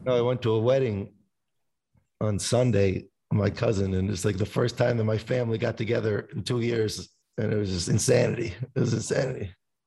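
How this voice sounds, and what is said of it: Hoarse, worn-out voice. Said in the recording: “I usually just scream ... That's why I lost my voice ... can't even talk no more.”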